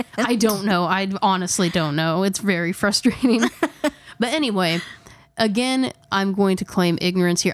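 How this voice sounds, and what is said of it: Indiana Midwestern twang. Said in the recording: “we're from Indiana and we are painfully, painfully aware of how we speak ... I actually probably speak worse ... It's my twang ... you have this accent”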